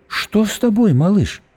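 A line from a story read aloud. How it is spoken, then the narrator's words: Gentle, affectionate question. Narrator (Russian): ласково спросила Диана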